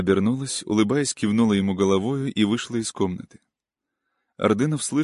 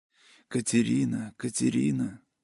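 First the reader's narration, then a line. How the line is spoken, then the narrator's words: Whisper. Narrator (Russian): шептал Ордынов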